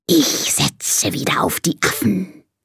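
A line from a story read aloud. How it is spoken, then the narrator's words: Hissing snake. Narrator (German): zischt die Schlange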